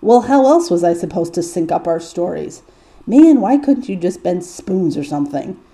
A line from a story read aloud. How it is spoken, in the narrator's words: Dean grumbles